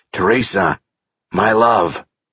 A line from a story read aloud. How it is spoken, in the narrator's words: The man said in a raspy voice